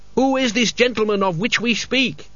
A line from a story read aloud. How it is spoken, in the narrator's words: he yelled